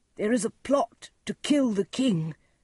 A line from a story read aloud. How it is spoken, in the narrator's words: cried